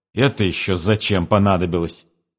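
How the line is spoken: Angry, frowning speech. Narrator (Russian): проговорила, злобно хмурясь

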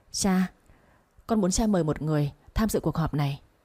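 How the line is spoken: Firm determined voice. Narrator (Vietnamese): Tống Gia Đăng khẽ nhếch môi, ánh mắt kiên định nói

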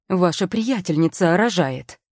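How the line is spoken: Shouting. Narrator (Russian): прокричал он

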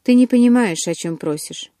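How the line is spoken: Glum, dejected. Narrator (Russian): уныло проговорил Эдвард

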